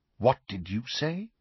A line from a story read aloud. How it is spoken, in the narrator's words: Snape asked quietly